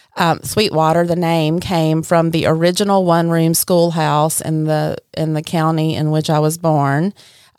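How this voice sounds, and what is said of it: Deep Southern Mississippi accent. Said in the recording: “You have a great accent. ... It's like Mississippi. ... It's deep south.”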